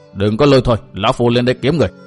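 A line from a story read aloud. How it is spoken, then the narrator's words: Angry shout. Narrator (Vietnamese): cau mặt quát rằng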